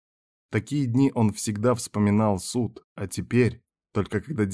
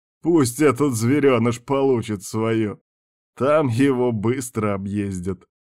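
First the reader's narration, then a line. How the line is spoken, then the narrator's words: Laughing. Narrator (Russian): сказал кто-то с хохотом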